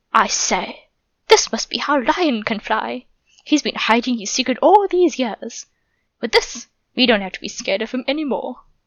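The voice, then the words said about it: Terrible put-on British accent. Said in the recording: “still in a ridiculously terrible British accent.”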